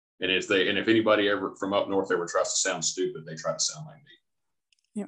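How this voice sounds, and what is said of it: Smooth Tennessee Southern accent. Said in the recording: “that smooth Tennessee whiskey accent going on”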